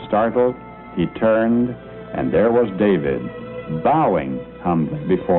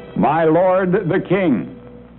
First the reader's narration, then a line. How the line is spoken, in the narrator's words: he heard a shout behind him